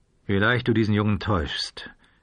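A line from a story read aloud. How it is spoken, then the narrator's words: Dry, to himself. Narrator (German): sagte sich der Revolvermann trocken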